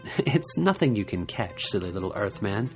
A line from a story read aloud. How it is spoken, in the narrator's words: Yute laughed and said